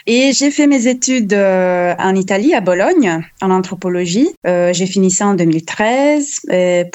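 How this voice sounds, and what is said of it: Italian accent speaking French. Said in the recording (French): “je suis italienne ... mon accent m'est trahi ... normalement les gens aiment l'accent italien”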